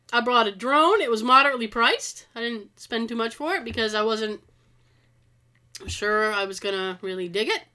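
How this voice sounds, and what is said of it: Sick-sounding voice. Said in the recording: “I've been sick. I'm sick, which is probably you can hear it in my voice.”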